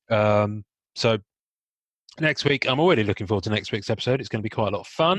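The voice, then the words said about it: Strained, failing voice. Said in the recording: “my voice is gonna fail ... my cough”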